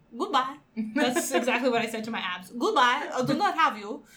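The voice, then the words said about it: Weird put-on Polish accent. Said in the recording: “That's a weird accent. Weird Polish accent.”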